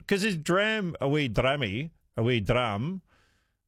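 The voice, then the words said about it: Attempted Scottish accent. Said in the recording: “that's my vague attempt of doing a Scottish accent”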